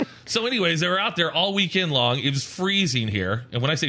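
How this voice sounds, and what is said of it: Usual voice. Nothing is said of it.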